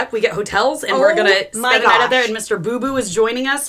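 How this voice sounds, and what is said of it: Usual voice. Nothing is said of it.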